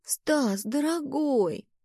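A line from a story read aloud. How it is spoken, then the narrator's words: Cooing. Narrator (Russian): проворковала я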